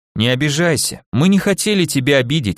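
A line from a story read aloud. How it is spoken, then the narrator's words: Soft, gentle start. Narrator (Russian): мягко начал он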